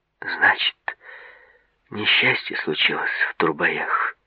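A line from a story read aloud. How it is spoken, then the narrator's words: Sighing. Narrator (Russian): вздохнула Тинатин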